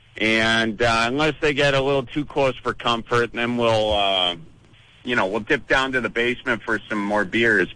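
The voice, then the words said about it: Wisconsin Midwestern accent. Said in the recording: “I love hearing that Wisconsin accent”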